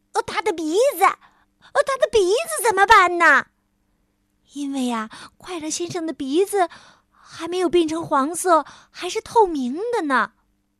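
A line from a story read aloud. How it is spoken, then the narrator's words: Shouting. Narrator (Chinese): 快乐先生喊道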